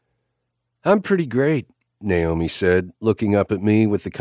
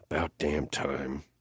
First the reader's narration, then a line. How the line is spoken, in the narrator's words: Nash muttered